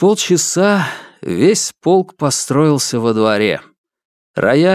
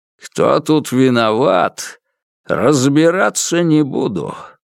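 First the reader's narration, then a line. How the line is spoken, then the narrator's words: Growled. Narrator (Russian): прорычал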